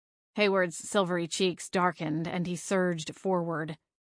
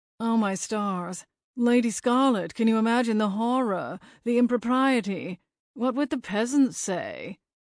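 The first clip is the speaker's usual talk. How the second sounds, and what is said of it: Imitates another character's accent. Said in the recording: “his best impersonation of Hayward's accent”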